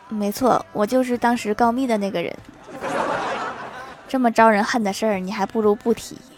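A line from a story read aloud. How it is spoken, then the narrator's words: Sheepish embarrassed laugh. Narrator (Chinese): 李逍遥惭愧一笑说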